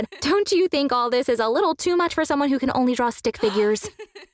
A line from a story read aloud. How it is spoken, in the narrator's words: She laughed and said